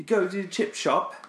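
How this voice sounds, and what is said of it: Put-on English accent. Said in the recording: “Now you can do your English accent.”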